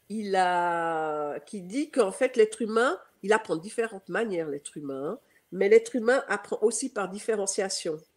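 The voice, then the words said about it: Swiss French accent. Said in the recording (French): “comme vous m'entendez, euh, j'ai un accent, euh, je suis suisse, donc euh, je suis née à Genève”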